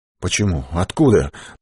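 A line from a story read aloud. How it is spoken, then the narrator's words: Mumbling. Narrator (Russian): пробормотал Богдан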